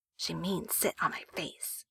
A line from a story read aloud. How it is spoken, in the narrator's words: Wei Ying whispers to Jiang Chong